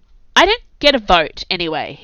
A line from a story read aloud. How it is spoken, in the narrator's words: Hebe said impatiently